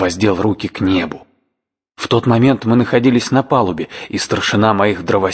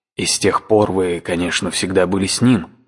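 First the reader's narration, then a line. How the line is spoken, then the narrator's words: Plain question. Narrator (Russian): спросил я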